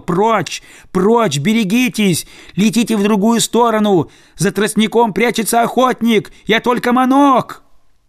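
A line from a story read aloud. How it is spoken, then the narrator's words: Shouting drake. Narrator (Russian): Селезень закричал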